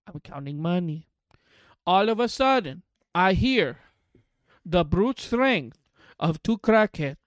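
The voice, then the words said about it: Put-on accent. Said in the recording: “What's with the accent? ... Bring back normal.”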